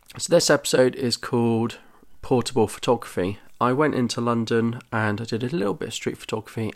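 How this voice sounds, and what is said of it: Congested, slightly off voice. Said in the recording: “My voice might sound a bit off because I've got a horrible cold”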